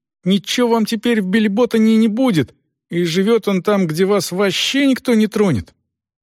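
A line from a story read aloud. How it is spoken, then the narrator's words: Exclaiming like an oath. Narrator (Russian): клятвенно воскликнул Рейч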